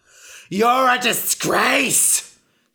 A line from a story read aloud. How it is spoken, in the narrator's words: screamed Ra